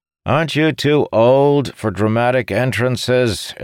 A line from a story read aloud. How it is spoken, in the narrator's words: Ilnari shouted from across the dais